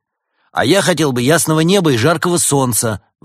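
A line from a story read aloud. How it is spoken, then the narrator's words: Shout. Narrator (Russian): выкрикнул Константин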